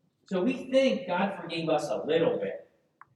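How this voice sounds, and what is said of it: Usual voice. Nothing is said of it.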